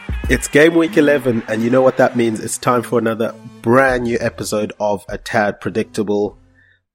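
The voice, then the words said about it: Sick, under-the-weather voice. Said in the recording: “I'm obviously feeling slightly under the weather, if you can hear from my voice”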